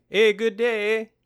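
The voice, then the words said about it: Higher-pitched Canadian character voice. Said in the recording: “you have to go a little higher in the voice ... Oh, that's pretty good, actually.”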